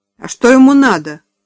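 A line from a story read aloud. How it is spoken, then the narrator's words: Rude question. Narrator (Russian): грубо спросил Тим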